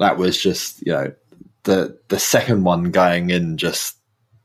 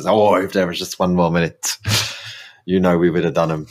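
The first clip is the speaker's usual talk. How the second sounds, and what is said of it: Bad put-on Irish accent. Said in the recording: “That was an awful Irish accent.”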